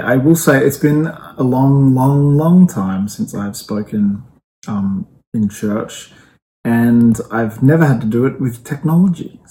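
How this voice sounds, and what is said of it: Australian accent. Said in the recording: “I speak with an Australian accent”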